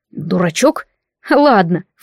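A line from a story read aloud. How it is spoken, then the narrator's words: Snorting. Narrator (Russian): фыркнула я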